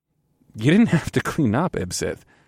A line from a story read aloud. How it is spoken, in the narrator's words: I said with a chuckle